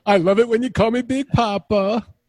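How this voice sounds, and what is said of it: Imitates another person's voice. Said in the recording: “put on my biggie voice.”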